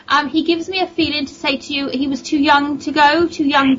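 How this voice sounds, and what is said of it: Speaker's own strong accent. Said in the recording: “it's my accent.”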